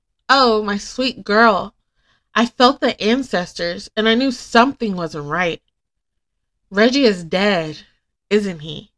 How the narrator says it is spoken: exclaims

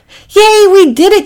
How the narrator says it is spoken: shouted Packy and Priscilla

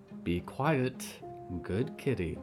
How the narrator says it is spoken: Clara whispered encouragingly

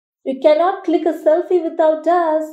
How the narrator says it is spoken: giggled Auntie Mala

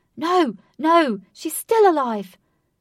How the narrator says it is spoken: Katie's father was aggressively shouting

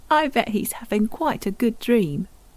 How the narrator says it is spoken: Tim chuckled

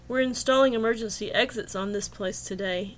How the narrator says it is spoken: he grunted

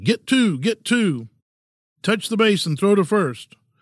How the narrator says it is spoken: him yelling

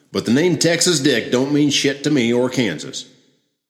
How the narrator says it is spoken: Shaw shouted

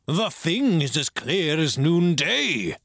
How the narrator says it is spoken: cried the squire

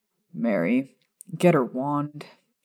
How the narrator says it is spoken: he muttered to the blonde witch

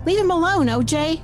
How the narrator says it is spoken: Nicole shouted

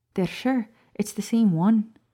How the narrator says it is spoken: Professor Sprout asked

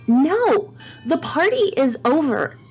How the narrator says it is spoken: Maddie yells

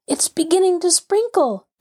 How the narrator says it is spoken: gasped Henry

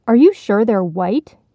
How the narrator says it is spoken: the frog asked urgently

